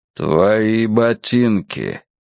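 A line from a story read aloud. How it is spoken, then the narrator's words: Low menacing voice. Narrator (Russian): сказал человек низким угрожающим голосом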